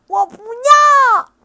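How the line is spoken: Loud shout. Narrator (Chinese): 小梅 大声喊道

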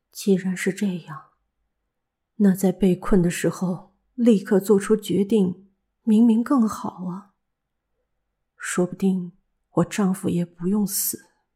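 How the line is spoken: Quiet repeating. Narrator (Chinese): 红子小声的重复着

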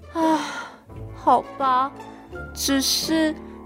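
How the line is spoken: Calm resigned sigh. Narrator (Chinese): 小猪 他冷静下来，叹了一口气说

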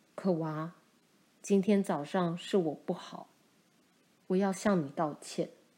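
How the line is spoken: Soft-spoken. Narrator (Chinese): 轻声对可娃说

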